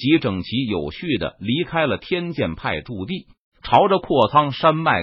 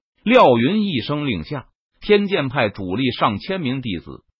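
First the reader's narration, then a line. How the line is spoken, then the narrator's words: Loud decisive command. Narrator (Chinese): 他不再犹豫，大声命令道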